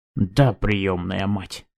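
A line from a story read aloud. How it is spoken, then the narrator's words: Angry reply. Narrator (Russian): сердито ответил Симэнь Ли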